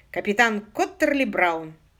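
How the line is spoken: Squeak. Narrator (Russian): пискнула Сью

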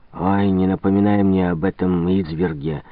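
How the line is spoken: Gloomy. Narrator (Russian): мрачно произнес Мурен

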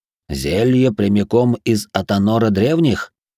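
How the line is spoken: Laugh cut short. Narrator (Russian): Арнус хохотнул, но затем смех оборвался

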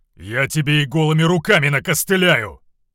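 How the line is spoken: Shouting. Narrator (Russian): выкрикнул Равус

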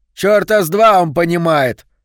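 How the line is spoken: Snorting scoff. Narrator (Russian): хмыкнул Соломон

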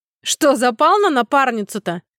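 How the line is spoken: Laughing loudly. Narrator (Russian): хохотал Нью-Йорк

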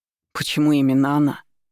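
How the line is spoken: Indignant declaration. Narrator (Russian): заявил возмущенно

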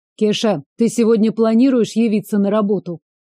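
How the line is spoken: Stern. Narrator (Russian): Строго уже сыну

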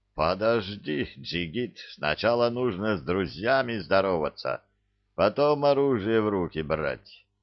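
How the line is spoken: Distant chuckle. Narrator (Russian): хохотнул где-то совсем уж в отдалении Закир

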